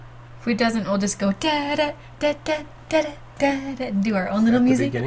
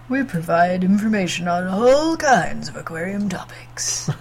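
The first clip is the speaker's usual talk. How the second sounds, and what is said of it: Deep bass imitation of another person. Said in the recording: “my Russ impression ... That's a pretty good Russ impersonation, right? ... That's me as a bass.”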